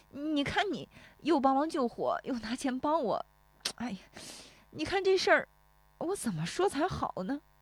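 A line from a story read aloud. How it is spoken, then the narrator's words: Near tears, choked. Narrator (Chinese): 石有福说着又要哽咽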